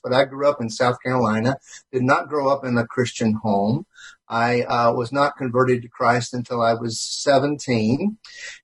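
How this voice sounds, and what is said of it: Southern US accent. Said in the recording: “any of what we call a Southern accent in the United States”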